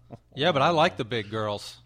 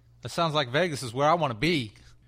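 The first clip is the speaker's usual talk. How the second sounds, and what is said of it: Put-on streetwise accent. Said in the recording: “that little like streetwise accent thing you threw on the end.”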